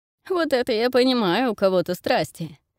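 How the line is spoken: Laughing. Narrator (Russian): смеясь заключил собеседник Коула

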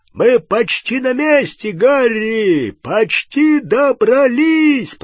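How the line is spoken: Shouting. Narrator (Russian): прокричал Хагрид

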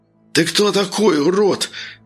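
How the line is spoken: Hoarse, smirking. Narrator (Russian): прохрипел парень, ухмыляясь

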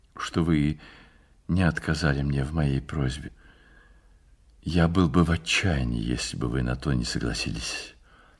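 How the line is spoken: Quiet and sad. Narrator (Russian): сказал тихим и печальным голосом

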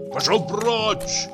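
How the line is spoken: Repeated shout. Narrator (Russian): крикнул я еще раз

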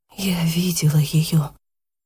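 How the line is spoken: Whispered. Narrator (Russian): прошептала наконец Яна

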